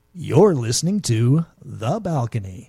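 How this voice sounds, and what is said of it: Radio announcer voice. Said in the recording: “you're using radio voice”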